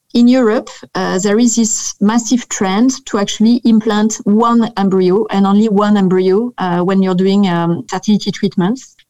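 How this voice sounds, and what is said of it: French accent. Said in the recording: “as you can hear from this delicious accent, I'm French”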